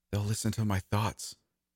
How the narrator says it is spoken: finally whispered

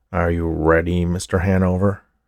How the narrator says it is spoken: growled the official

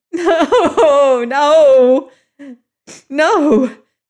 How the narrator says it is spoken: he sobbed

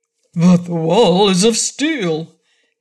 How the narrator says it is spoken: exclaimed the big frog

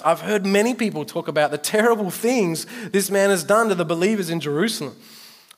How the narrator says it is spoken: exclaimed Ananias

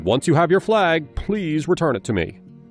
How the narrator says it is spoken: Reginald shouted

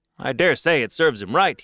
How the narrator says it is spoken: said

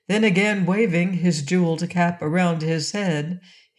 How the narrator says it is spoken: he cried in a merry voice

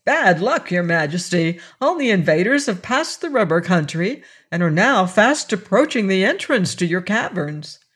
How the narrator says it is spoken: he exclaimed

